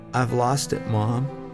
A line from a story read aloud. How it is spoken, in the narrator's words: timidly he said